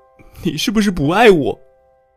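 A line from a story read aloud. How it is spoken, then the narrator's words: Crying, trembling. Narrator (Chinese): 他边说边哭，握着手机的手微微颤抖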